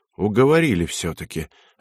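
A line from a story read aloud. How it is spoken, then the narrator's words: Relieved sigh. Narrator (Russian): облегченно вздохнул ефрейтор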